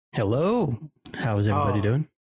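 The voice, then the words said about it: Sultry, smooth public-radio announcer voice. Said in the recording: “Whoa, sultry. ... My NPR voice.”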